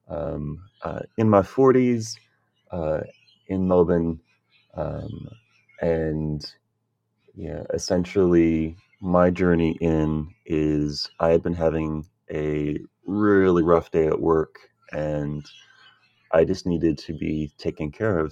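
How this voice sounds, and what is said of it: American accent. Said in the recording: “As you might be able to tell from the accent, an import to Australia from the United States.”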